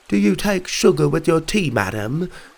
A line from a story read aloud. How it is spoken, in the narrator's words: he said in his terrible British accent